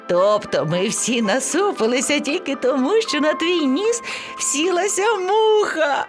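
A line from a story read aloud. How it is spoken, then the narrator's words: Laughing. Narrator (Ukrainian): Сміялося ливеня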